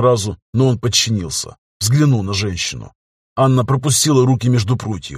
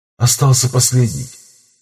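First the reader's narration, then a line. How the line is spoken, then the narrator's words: Heavy wet wheezing. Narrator (Russian): Мегистотерий дышал с тяжелым влажным хрипом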